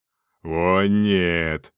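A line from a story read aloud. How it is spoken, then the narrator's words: Roaring voice. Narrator (Russian): проревел голос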